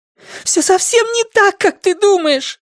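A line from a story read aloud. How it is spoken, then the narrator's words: Shouted. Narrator (Russian): закричала Александра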